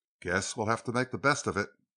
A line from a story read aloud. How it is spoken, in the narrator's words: he murmured